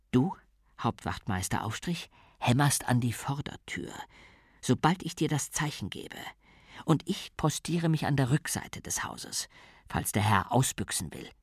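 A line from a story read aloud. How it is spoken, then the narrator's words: Whispered. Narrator (German): flüsterte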